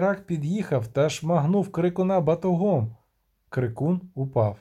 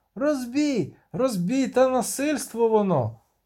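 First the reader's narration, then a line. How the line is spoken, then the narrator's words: Shouted, big man. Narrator (Ukrainian): крикнув великий дядько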